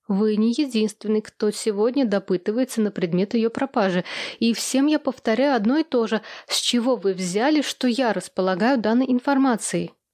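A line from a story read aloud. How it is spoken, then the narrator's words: Heavy sigh. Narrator (Russian): Тяжело вздохнула я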